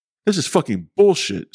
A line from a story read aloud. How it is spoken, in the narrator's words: Steve shouted as he stormed off camera